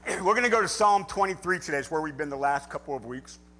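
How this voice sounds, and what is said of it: Slightly raspy, hoarse voice. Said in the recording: “my voice is a little raspy. I was getting over a little head cold.”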